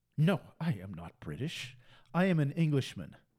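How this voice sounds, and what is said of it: Imitated English accent. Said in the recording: “He's from England. And he's got this accent.”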